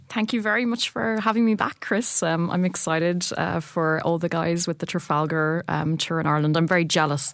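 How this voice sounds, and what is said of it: Lilting Irish accent. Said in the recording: “she of the lilting Irish accent”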